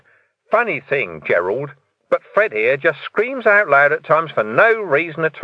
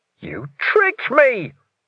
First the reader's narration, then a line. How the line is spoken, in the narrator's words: Ferret wailed